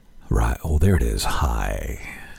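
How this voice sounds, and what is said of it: Put-on sexy voice. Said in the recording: “I got to find my sexy voice.”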